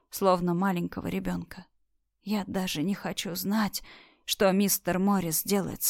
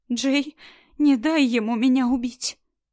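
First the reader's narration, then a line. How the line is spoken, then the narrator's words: Convulsive sobbing plea. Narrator (Russian): Мама в судорожных всхлипах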